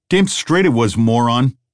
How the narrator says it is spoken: snapped the man with a face

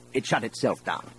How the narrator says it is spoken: Brand snapped

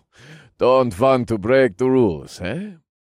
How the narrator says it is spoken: He chuckled

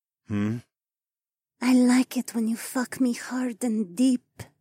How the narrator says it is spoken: Adhara purred

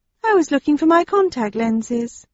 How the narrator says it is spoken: she said in a friendly tone

